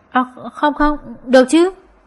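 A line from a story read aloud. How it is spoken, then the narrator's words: Stammering. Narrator (Vietnamese): Nước mắm nhị lắp bắp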